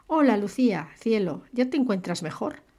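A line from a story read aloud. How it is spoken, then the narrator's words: Jovially solicitous question. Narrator (Spanish): preguntó en un tono de jovial solicitud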